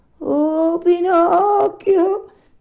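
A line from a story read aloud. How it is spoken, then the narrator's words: Whining fox cry. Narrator (Italian): gridò la volpe con voce di piagnisteo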